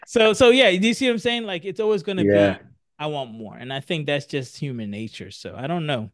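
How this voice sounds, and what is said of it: Usual voice. Nothing is said of it.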